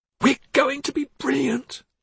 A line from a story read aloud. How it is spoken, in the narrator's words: Dorothea exclaimed